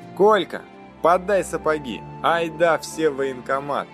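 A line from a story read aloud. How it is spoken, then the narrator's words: Shouted. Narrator (Russian): крикнул парень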